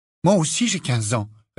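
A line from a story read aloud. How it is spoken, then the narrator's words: Quick retort. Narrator (French): répliqua vivement Harry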